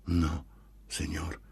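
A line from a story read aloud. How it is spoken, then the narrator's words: Pained barely audible reply. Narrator (Italian): Si sentiva che le era penoso parlare, ma questa volta non c'era mezzo di sfuggire e a voce bassissima appena intelligibile, rispose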